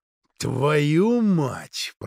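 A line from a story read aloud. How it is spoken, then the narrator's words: Growling. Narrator (Russian): прорычал он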